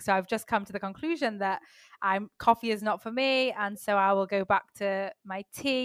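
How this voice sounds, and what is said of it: English Manchester accent. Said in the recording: “where's her accent from? ... I'm from the UK. I'm from Manchester in England.”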